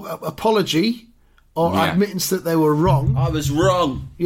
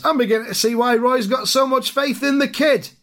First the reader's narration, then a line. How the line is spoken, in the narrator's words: another fan shouts